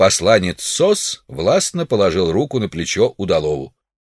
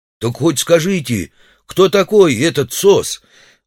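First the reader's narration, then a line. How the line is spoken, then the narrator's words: Pleading. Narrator (Russian): взмолился Удалов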